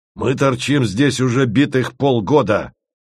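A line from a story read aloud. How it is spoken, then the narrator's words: Growling. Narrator (Russian): рычал Корнеев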